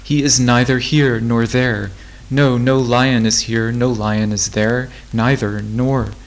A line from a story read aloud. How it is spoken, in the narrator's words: cried Rose